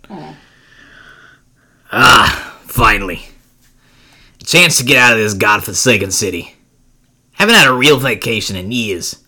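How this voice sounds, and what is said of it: Put-on New Jersey accent. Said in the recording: “a New Yorker accent, or what? ... It's a Joyzy accent.”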